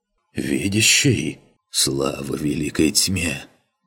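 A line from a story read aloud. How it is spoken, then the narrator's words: Hoarse breaking breathless whisper. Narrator (Russian): Тяжело дыша, хриплым срывающимся голосом шепчет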